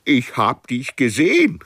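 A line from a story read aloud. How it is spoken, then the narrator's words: Frog calling happily. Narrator (German): rief der Frosch glücklich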